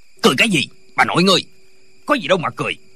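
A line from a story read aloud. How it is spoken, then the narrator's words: Official's angry shout. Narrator (Vietnamese): Viên quan lại quát lên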